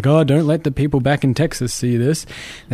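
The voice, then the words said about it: Badly imitated accent. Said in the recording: “That's a really bad accent.”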